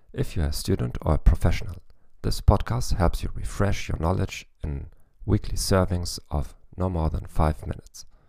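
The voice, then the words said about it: German-accented English. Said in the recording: “with a German accent ... I'm not an expert in English, though”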